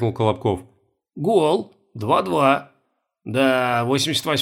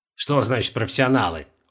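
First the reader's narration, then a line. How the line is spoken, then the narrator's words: Respectful snort. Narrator (Russian): уважительно хмыкнул Колобков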